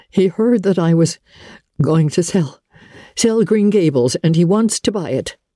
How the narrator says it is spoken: There were tears in her eyes, her voice broke as she said

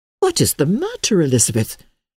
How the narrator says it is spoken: cried Laura

